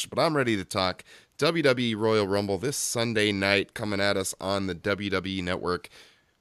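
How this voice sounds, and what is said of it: Hoarse, worn-out voice. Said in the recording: “cold and all. If you can't tell, my voice is completely thrashed”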